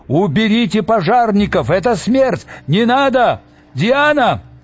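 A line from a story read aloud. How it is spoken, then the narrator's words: Anonymous shouts from crowd. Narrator (Russian): кричал в толпе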